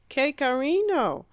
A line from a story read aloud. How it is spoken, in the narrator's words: exclaimed the singer